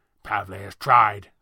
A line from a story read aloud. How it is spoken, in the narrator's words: Thatcher spat